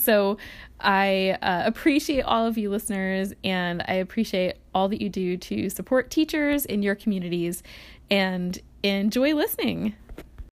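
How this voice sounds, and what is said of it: Tired, sleepy voice. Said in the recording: “I sound so tired at moments during this recording ... you can just hear the sleepy teacher voice.”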